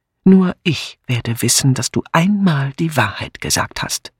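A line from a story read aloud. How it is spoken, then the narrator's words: Hissed. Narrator (German): zischte Miss Blacklock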